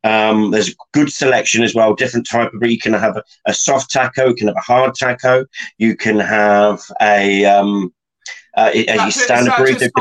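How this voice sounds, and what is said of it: Wiltshire English accent. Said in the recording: “Soft tackle and hard tackle in a Wiltshire accent.”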